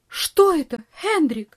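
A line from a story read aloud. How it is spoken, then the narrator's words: Startled cry. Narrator (Russian): вскрикнула тетушка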